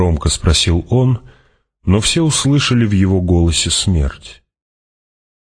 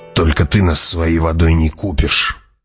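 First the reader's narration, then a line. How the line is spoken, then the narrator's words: Growled. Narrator (Russian): прорычал Джамис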